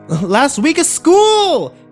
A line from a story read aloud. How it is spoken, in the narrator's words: Kimber yelled at my retreating back